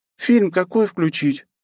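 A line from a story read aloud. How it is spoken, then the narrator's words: Uncertain question, redhead. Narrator (Russian): неуверенно спросила рыжая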